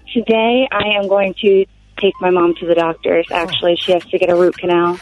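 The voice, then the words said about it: Sexy, attractive female voice. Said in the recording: “That's a hot-ass voice. ... sexy voice”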